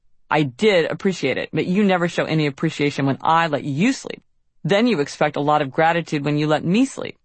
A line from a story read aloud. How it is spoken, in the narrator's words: Because Jamie neglected to give me a gold star for staying up with Eleanor, I snapped